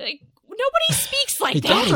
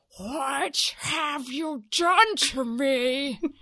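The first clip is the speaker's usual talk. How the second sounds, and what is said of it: Over-enunciated Shelley from South Park impression. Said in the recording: “she sounds like Shelley from South Park ... she's enunciating every single word ... That's a really good imitation.”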